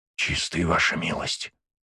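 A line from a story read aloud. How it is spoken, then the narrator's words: Whisper. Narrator (Russian): Шепот Дикса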